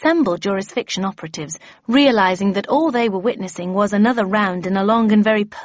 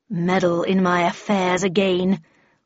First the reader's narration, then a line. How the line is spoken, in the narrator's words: growled the Red Queen